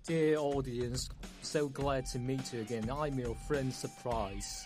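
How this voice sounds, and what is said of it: Poor put-on Cockney accent. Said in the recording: “your broken Cockney accent. It's not authentic or funny.”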